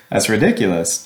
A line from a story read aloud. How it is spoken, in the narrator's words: Josh chuckled